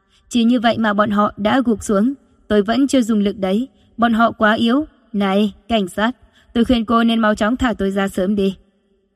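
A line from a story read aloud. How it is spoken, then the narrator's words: Laughing heartily. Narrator (Vietnamese): Giang Cung Tuấn bật cười ha ha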